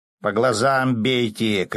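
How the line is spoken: Fisherman shouting. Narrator (Russian): крикнул рыбак

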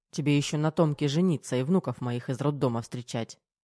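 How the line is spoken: Old man's grumble. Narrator (Russian): По-стариковски проворчал полковник

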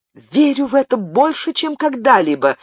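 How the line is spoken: Exclaiming. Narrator (Russian): воскликнула Диана

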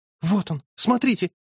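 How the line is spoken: Sudden frightened outburst. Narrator (Russian): вдруг прервала свой рассказ девушка, испуганно

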